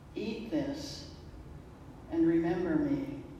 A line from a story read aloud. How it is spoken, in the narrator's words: he says softly